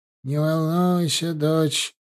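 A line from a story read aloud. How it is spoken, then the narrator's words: Sad, smiling. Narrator (Russian): печально улыбнулся Ленц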